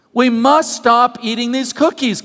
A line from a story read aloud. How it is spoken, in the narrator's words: cried Toad